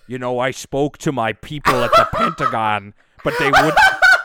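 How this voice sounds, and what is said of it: Imitates another person's voice. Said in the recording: “I didn't know you could do such a good Jesse Ventura. That's like my favorite impression you've ever done. That's incredible.”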